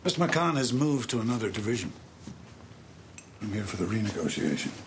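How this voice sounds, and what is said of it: Distinctive accent, hard to place. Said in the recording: “He's got a very distinctive accent, ... It's not, it's neither here nor there, but you'd recognise it.”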